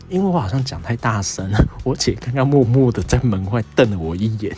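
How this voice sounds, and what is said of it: Quiet, lowered voice. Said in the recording (Chinese): “为什么我现在声音变得那么小声？”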